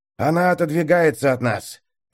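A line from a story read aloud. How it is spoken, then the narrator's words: Hoarse rasp. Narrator (Russian): прохрипел маг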